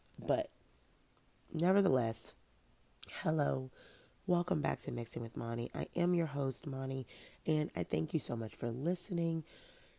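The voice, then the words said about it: Congested, stuffy-nosed voice. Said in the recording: “why do I sound so congested? I have no idea. Better than a hoarse voice, though.”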